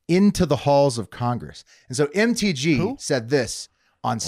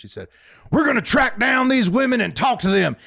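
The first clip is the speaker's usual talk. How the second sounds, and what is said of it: Imitates another person's voice. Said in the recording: “such a good MGT impression. It was like she was here in the room with us.”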